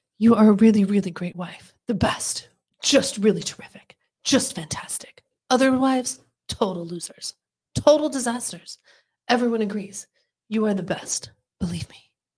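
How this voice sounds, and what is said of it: Imitates another person's voice. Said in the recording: “Are you doing your Trump imitation right now? ... Not bad. ... She does pretty good. ... That's pretty good.”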